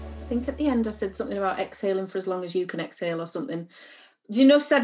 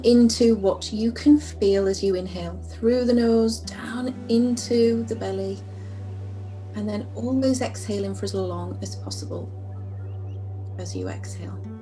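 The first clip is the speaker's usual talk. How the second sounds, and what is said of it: Calm soothing yoga-instructor voice. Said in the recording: “I did my yoga voice”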